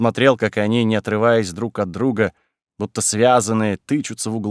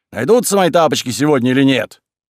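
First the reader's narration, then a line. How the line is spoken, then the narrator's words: Shouted. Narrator (Russian): Кузьма закричал на ребят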